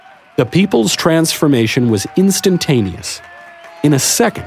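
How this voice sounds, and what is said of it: Usual voice. Nothing is said of it.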